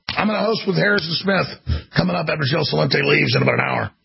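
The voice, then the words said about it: Raw, exhausted, slightly slurred voice. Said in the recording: “my throat is totally raw from giving dozens of speeches. I'm completely exhausted ... So if I'm slurring my words, that's what's going on is my tongue.”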